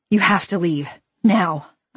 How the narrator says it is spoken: I said, a little too breathlessly

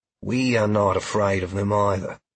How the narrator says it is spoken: Sheila said in her steady voice

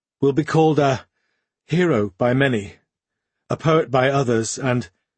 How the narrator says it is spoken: she began, faltered, then continued in a broken voice

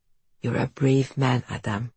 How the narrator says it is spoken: Alina says softly

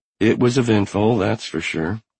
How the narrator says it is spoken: Gail said dryly

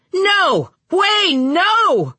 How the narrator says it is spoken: someone was in the street, shouting for the boy, shouting

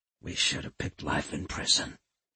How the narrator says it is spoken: he muttered

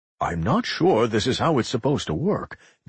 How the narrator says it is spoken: Jonas muttered

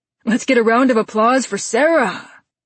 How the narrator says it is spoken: the guitarist shouts

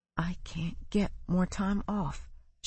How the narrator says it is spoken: she whispered

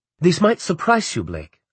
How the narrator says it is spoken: Anna said, her words flowing quickly

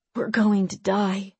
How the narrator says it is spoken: Tolliver whispered

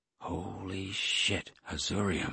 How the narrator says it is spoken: I breathed

